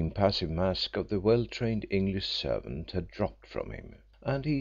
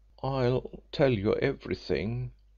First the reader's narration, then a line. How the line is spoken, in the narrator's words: faltered Hill